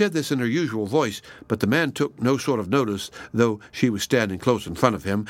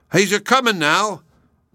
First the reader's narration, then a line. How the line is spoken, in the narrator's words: cried Bruno